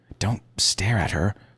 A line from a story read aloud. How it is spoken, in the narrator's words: she hissed, as if I'd picked my nose